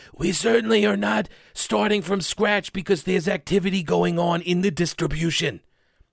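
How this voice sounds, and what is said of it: Imitates another person's voice. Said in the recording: “my Fauci impression. It needs some work.”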